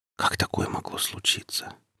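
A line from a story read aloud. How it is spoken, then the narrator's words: Whisper. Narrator (Russian): прошептала Рита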